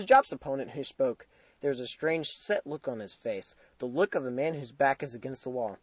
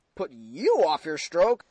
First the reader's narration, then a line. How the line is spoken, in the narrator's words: I exclaimed incredulously